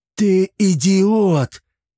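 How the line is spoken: Shocked exclamation. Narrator (Russian): воскликнул пораженный увиденным Чермес

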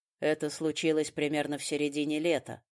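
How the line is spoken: Flat, colorless voice. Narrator (Russian): бесцветным голосом рассказывал Фрай

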